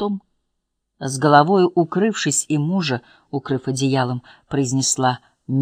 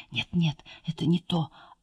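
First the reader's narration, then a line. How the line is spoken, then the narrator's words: Whisper in ear. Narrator (Russian): она прошептала ему на ухо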